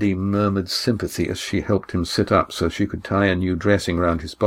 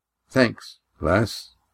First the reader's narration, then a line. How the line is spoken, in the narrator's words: muttered